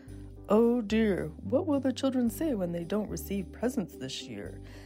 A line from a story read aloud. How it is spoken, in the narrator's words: Santa wondered sadly